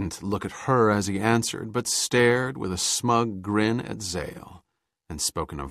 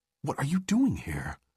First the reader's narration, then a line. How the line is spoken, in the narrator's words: whispered